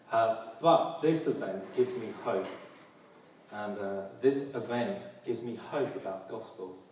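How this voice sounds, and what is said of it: London accent. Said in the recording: “As you can hear my accent, I'm a proud Londoner”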